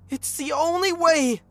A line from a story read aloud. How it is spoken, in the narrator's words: Angela screamed